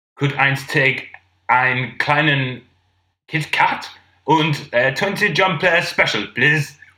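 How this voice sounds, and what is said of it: Put-on accent sounding like Mr. Bean. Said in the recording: “You sounded like Mr. Bean, then.”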